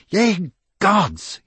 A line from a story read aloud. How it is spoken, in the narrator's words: he said angrily